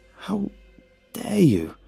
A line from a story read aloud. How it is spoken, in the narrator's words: croaked shakily